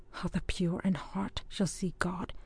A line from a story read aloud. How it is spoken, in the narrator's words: she murmured to herself